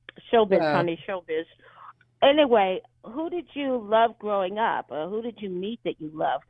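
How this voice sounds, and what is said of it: New York-sounding accent. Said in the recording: “Did you get that accent ... It's a speech defect, actually, but I've sort of worked it around to sound kind of New York-y”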